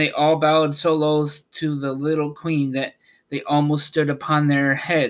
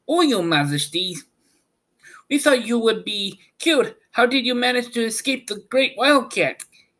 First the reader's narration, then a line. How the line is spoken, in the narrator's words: they exclaimed